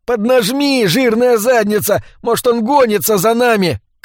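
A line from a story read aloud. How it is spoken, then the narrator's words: Shout. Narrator (Russian): кричал Эдди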